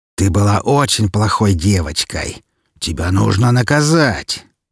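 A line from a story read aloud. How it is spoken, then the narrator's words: Growled. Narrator (Russian): прорычал Клейтон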